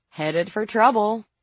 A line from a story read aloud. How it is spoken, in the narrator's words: April said cheerfully